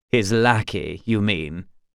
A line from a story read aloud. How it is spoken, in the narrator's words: scoffed Darren